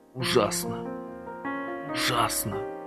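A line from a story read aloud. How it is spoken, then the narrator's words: Muttering. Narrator (Russian): бормотал Никита Кляпов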